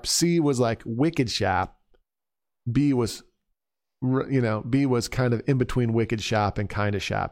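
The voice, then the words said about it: Put-on Boston accent. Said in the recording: “You're getting good at that Boston accent.”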